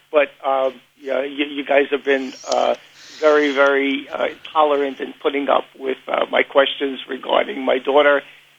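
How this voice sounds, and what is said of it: Strong Queens New York accent. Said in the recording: “You can't miss that Queens accent anywhere.”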